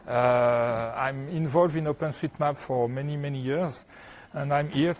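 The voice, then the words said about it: French accent in English. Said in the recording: “I'm coming from France, so I have a French accent, sorry.”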